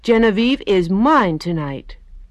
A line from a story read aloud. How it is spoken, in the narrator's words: each little girl cried